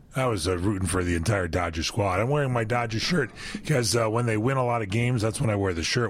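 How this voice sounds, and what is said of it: Hoarse, froggy voice. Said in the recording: “You got a frog in your voice there... I got a little laryngitis that I'm recovering from”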